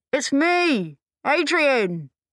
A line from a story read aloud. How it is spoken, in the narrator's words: shouted